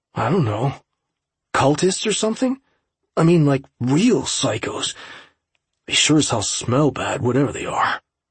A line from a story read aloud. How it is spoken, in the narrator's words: Jared muttered